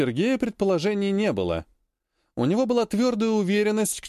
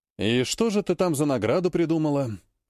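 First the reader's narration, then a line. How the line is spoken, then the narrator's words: Sighing. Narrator (Russian): Вздохнул майор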